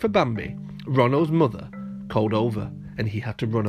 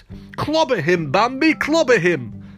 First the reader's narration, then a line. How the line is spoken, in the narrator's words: Thumper shouted